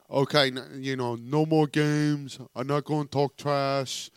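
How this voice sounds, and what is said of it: Imitates another person's voice. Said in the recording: “That's a pretty good impression”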